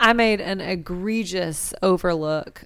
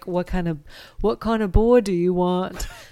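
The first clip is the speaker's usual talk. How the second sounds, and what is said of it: Put-on British accent. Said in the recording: “There's my British accent.”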